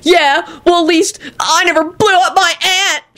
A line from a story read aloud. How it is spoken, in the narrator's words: shrieked Kenny